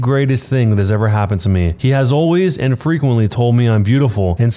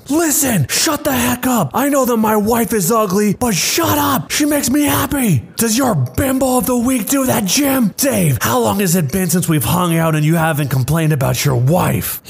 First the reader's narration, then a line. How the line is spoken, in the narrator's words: my husband blew up and started shouting